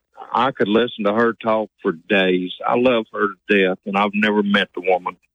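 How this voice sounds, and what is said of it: Hillbilly accent. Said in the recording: “Do you think you have an accent?... Yes, sir. I know I do. I'm a hillbilly.”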